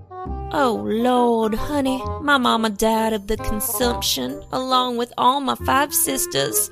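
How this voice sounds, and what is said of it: Put-on American Southern accent. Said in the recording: “Why are you speaking in a southern accent? ... Savannah, Georgia”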